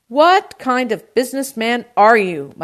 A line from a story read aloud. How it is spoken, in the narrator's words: my uncle shouted